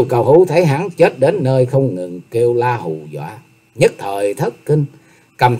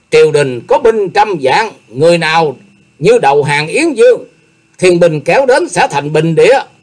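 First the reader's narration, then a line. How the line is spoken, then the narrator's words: Pained ceaseless yelling. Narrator (Vietnamese): cố nén cơn đau, miệng la lên không dứt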